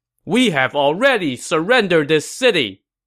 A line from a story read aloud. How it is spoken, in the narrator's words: his confidant and his nephew shouted at him